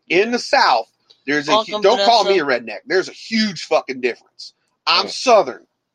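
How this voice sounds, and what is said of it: Southern American twang. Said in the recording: “I'm Southern... You hear the twang in my voice.”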